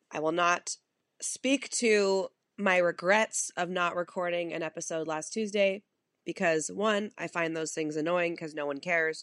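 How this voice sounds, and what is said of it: Wonky voice from illness. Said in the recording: “my voice is a little wonky ... I have been getting sick ... my voice may be a bit wonky today”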